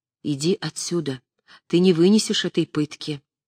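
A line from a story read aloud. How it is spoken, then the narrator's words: Soft whisper. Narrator (Russian): Остроухов тихо шепнул ей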